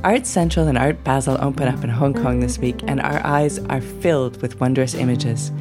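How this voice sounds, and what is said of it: Hoarse, croaky voice. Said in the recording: “I have got a touch of laryngitis today, so excuse the sound of the frog in my throat.”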